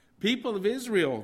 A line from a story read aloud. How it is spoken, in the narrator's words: they shouted